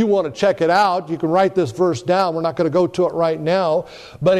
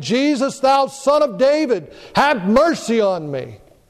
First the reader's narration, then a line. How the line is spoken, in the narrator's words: He cried out saying